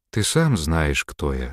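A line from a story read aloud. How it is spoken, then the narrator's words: Calm. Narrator (Russian): спокойно ответила демоница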